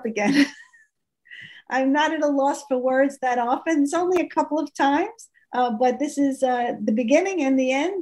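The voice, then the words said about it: Choked-up emotional voice. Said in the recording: “getting choked up”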